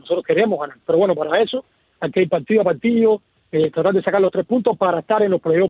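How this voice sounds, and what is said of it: Cuban Spanish accent. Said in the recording (Spanish): “ese acento cubano”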